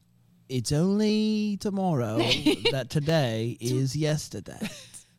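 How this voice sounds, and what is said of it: Put-on British accent. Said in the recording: “your British accent has improved over the 4 years of doing this podcast ... British Brand”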